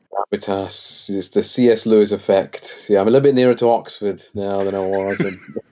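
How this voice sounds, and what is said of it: Strong British accent. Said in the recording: “Your accent feels stronger than it was when you were over here. ... It's more British stronger.”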